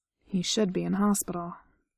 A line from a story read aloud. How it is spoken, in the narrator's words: Errol said a little grimly